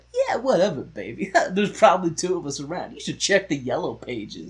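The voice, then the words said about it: Sleazy slick guy character voice. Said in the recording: “I'm very good at imitating assholes.”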